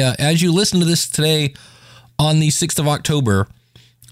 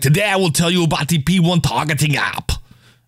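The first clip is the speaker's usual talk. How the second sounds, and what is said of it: Put-on Austrian accent. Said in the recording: “it's kind of an Austrian, and then, yeah, it's a little bit like Schwarzenegger”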